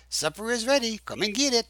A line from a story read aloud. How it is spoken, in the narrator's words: Rosita came to the door of the main house and hollered